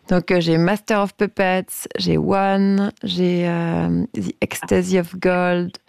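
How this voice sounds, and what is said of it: English titles in a heavy French accent. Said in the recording (French): “Avec mon accent anglais complètement nul.”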